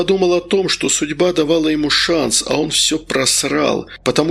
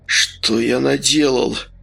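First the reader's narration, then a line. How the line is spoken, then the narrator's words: Moaned. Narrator (Russian): стонал Вениамин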